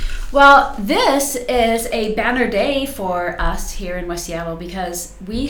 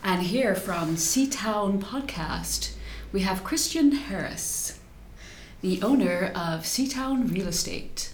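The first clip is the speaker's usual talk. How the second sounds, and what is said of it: Smooth public-radio announcer voice. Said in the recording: “I've been practicing my NPR voice”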